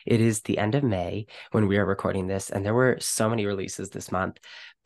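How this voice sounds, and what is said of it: Voice sounds sick, recovering from illness. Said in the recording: “excuse my voice. ... I am just getting over being sick”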